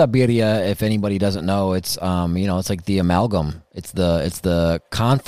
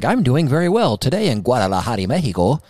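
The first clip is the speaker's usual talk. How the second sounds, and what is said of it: Mocking fake accent of news reporter. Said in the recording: “they'd do like this accent. ... you don't talk like that. ... put this fake accent on to try and sound like, you know, smart and well-versed”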